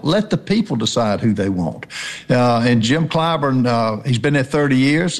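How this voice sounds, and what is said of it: Southern American accent. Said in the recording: “It's good to hear a Southern accent here in New York City.”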